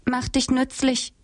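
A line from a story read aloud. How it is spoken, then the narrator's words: Calling out. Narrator (German): rief sie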